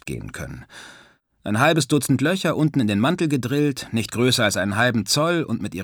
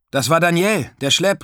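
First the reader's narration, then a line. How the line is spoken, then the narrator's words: Called out to someone. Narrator (German): rief ich Stanislav zu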